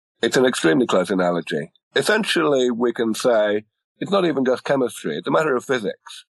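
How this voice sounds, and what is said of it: Non-American accent. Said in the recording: “despite the accent,”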